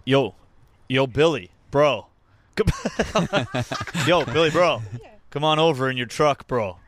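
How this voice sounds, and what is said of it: Exaggerated put-on American accent. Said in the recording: “my douchey American”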